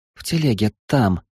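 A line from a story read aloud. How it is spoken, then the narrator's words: Whispered. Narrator (Russian): прошептала она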